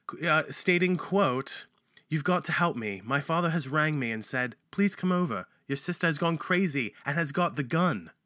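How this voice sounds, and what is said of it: Put-on British accent. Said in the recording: “should I read this with my British accent? ... teaching me how to speak British. ... With a British accent.”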